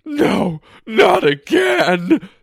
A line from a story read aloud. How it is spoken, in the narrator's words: someone cried out